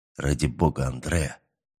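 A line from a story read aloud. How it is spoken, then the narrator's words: Quiet but insistent. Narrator (Russian): Негромко, но настойчиво произнес новозеландец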